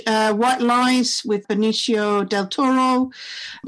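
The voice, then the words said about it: Put-on funny accent. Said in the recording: “Put on my funny accent there”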